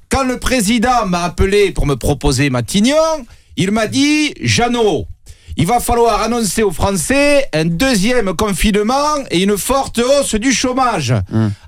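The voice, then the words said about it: Imitated voice with southern French accent. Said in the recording (French): “votre accent ... l'accent du Sud”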